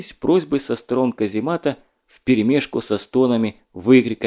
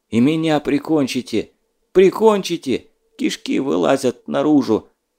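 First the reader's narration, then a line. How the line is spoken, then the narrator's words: Nearby soldier moaning. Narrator (Russian): Стонал неподалеку какой-то боец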